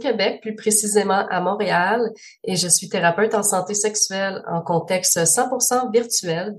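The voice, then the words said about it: Pleasant regional accent. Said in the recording (French): “ton joli accent”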